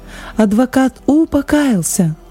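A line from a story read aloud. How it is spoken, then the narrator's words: Joyful shout. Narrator (Russian): Он радостно закричал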